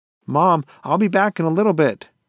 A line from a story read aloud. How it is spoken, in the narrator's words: she yelled out